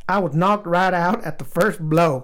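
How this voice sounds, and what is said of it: Imitates another person's voice. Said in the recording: “I'm going to try to do my best impersonation of what I think Daryl sounds like ... I don't know why he talks like that ... had to reach deep inside my acting soul to pull that one out”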